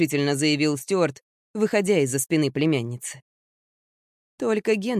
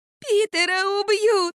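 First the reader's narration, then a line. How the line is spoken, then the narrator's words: Child's muffled sobbing. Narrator (Russian): Юбка не могла заглушить рыдания шестилетнего ребенка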